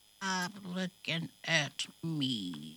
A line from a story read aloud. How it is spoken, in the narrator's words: she mutters